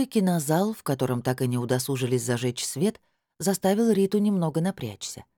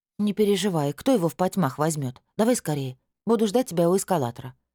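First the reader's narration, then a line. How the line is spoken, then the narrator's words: Quick, brisk. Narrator (Russian): быстро сориентировалась Натусик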